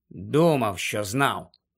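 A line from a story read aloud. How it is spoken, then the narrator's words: Muttered. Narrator (Ukrainian): пробурмотів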